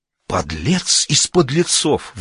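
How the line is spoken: Indignant exclamation. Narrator (Russian): в негодовании воскликнул царь

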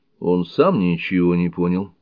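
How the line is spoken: Plain. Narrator (Russian): ответил Скотт

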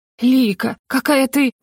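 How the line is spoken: Admiring breathless exclamation. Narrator (Russian): восхищенно выдохнула она

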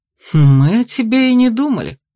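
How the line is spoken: Mocking chuckle. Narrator (Russian): хохотнул Эйс

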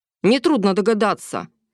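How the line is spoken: Sharp reply. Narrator (Russian): резко ответил Ярослав

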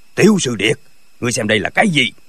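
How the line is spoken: Loud shout. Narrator (Vietnamese): lão miệng quát lớn

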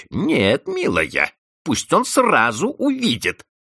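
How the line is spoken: Spiteful. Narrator (Russian): злобно отвечала Анна Григорьевна

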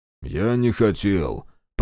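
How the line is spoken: Mumble. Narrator (Russian): промямлил Попов

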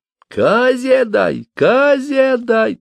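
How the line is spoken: Thin shout through pipe. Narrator (Russian): тонким голосом крикнул скоморох через дудку

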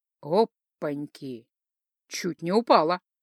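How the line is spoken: Husky breathy voice. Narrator (Russian): Его голос с хриплым придыханием

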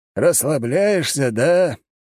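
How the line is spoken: Snorting. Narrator (Russian): хмыкнул он

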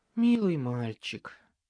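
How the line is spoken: Sighing. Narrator (Russian): вздохнула Леа

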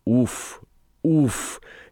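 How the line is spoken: Barely audible panting through teeth. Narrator (Russian): едва слышно отдышалась Элли сквозь зубы

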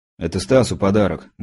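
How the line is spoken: Grumbled. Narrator (Russian): буркнул я

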